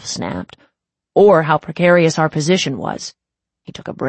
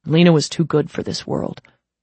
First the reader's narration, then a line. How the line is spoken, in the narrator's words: Dolph said softly